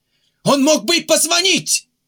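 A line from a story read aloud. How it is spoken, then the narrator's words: Several voices shouting. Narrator (Russian): кричали Денискин, Глухарев и Квант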